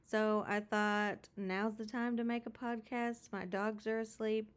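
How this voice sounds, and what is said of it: Voice sounds sick, a little different. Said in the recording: “I am currently homesick. I don't know if you can hear that I sound a little different”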